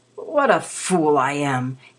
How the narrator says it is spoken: he groaned

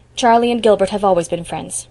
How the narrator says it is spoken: said coldly

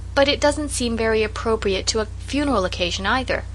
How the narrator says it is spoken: said Felicity

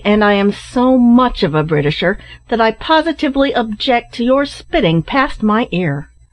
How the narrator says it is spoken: answered Ned somewhat angrily

